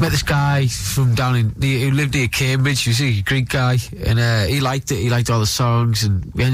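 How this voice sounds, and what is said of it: Usual voice. Nothing is said of it.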